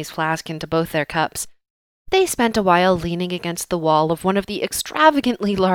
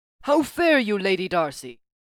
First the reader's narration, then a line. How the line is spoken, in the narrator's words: Thor boomed